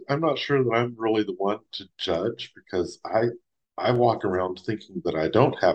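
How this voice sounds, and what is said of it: Speaks with a drawl. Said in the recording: “makes fun of my accent ... Matthew McConaughey Jr. ... because of my drawl ... I guess there is a drawl”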